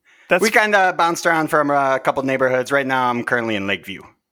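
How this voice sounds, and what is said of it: Strong Chicago accent. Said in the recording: “where in the city? Because I feel like that accent doesn't really exist anymore.”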